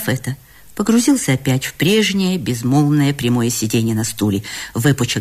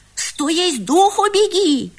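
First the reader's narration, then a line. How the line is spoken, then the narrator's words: Sudden shout, boy. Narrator (Russian): крикнул вдруг мальчик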